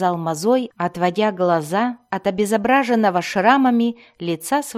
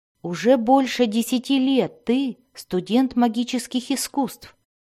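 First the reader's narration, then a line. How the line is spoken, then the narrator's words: Plain. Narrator (Russian): ответил Альтан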